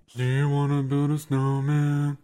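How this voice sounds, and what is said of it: Imitates another person's singing voice. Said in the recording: “my impression of Danae singing a Frozen song”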